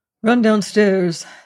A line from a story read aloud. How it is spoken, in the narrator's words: said Yarrow curtly